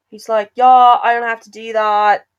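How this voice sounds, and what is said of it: Attempted British accent sounding Australian. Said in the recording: “Oh, that's Australian. I can't do a British accent.”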